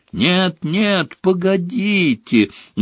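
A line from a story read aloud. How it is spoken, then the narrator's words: Shrill squeal, echoing. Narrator (Russian): взвизгнула Плакса Миртл, и по туалету разнеслось громкое эхо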